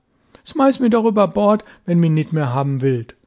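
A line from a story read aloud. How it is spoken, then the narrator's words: Cheeky boy's shout. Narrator (German): rief der Junge patzig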